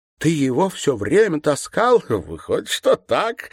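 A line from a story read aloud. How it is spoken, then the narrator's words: Laughing. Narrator (Russian): засмеялся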